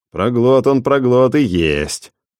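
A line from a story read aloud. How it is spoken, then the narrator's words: Grumbling crowd. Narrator (Russian): ворчали сельчане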